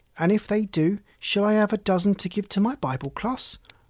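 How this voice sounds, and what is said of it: Wheedling, coaxing voice. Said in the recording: “in a wheedling voice”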